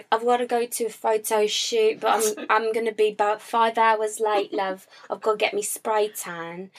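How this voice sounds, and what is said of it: Thick British accent. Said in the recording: “a very thick British accent”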